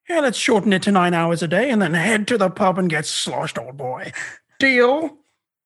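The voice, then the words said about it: Exaggerated put-on posh British accent. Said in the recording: “putting on a British accent when you already have a British ... a sort of Nigel Thornberry type deal”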